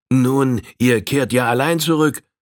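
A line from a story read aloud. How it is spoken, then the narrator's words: Old man calling out. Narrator (German): rief der alte Missouri Old Firehand entgegen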